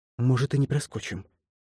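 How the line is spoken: Whispered reply. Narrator (Russian): шепнула в ответ лиса

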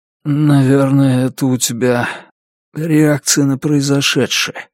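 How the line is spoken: Hoarse. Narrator (Russian): хрипло сказал Деннис

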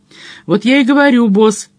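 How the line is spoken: Exclaimed. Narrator (Russian): воскликнул Мадж

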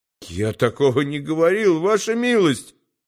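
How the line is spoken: Timid babbling. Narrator (Russian): пролепетал Келлерь

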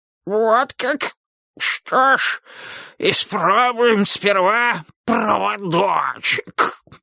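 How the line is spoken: Hoarse wheeze. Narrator (Russian): прохрипел король

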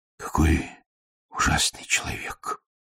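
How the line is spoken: Quiet speech. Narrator (Russian): тихо сказал майор

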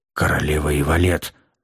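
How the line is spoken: Muffled grumble from behind. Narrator (Russian): Глухо буркнул кто-то сзади

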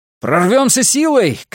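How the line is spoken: Shouting. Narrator (Russian): крикнул я Бенкею

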